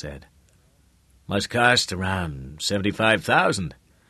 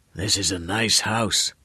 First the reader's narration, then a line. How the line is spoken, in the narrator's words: the old man said hoarsely